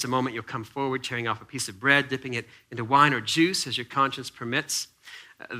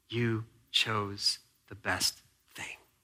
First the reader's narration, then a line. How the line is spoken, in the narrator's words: the Spirit of Jesus whispering